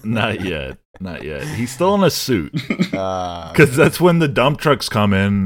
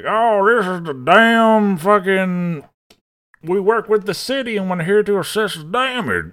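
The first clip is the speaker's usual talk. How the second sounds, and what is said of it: Put-on Southern American accent. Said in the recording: “He has like an in and out southern accent”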